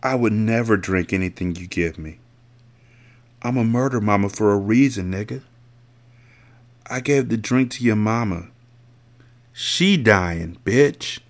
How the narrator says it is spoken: she muttered

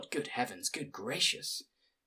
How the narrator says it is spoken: whispered the old woman

